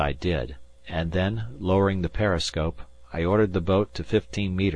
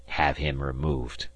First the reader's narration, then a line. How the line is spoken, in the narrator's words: this semi-madman growled